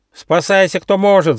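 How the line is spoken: Shouting goose. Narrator (Russian): закричал полулапчатый гусь

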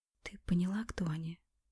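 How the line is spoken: Whisper in the ear. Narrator (Russian): прошептала она на ухо

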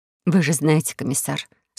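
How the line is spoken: Sad. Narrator (Russian): сказала печально Кора

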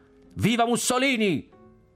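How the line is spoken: Boy shouting. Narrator (Italian): il ragazzo gridò

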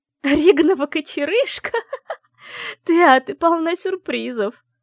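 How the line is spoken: Barely speaking through laughter. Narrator (Russian): еле выговорила сквозь смех Вивьен

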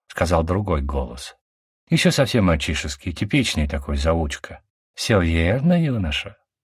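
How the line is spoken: Plain. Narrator (Russian): сказала Кира

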